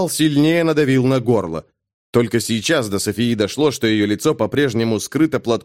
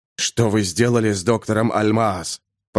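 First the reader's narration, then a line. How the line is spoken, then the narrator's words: Hiss close to ear. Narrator (Russian): прошипел над ухом у Софии голос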